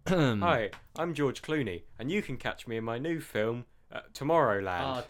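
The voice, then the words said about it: Generic American accent. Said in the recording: “generic American accent”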